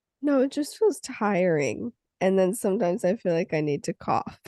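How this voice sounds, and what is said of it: Sick, congested voice. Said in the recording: “I'm so sick... It's stunning the way you sound... But I sound more congested.”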